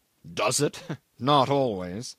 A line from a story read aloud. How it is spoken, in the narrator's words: he said with a bitter laugh